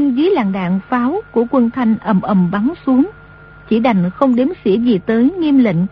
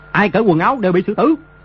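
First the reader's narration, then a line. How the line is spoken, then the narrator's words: Harsh shouted command. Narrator (Vietnamese): Đồ Nhĩ Bố Thanh quát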